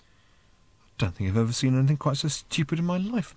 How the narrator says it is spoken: muttered Ford to himself

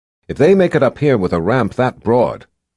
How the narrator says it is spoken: Kara said

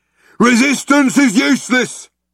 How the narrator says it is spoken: bellowed the guard

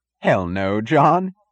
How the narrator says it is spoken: he said, laughing

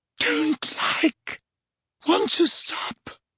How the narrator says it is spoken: moaned Dumbledore

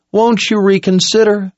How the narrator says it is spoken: Owen pleaded

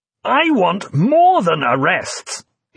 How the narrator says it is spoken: he shouted furiously

